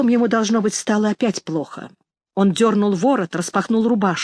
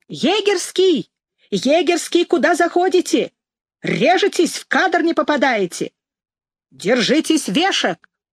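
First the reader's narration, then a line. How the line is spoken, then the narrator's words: Young ringing shout, megaphone. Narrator (Russian): вдруг снова закричал молодым, звонким голосом в мегафон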